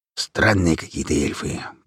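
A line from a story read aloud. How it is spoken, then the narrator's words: Grumbling. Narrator (Russian): проворчал Хромой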